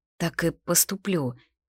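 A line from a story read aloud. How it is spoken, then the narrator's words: Quiet. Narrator (Russian): вымолвила тихо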